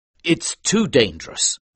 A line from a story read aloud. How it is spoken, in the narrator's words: said Frederick